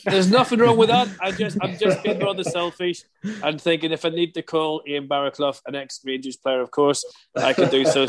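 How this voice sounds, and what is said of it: Northern Irish accent. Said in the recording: “I'm from Northern Ireland, as you can tell by my stupid accent.”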